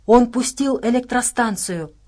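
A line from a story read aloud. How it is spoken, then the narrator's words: Exclaim. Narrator (Russian): воскликнула Нелл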